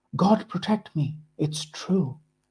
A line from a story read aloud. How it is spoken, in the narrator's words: says, his voice filled with awe